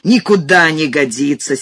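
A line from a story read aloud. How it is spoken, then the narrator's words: Angry shout. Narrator (Russian): сердито крикнул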